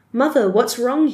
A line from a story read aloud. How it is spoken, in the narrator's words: asked